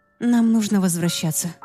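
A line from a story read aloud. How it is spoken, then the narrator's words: Sighing. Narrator (Russian): вздохнула я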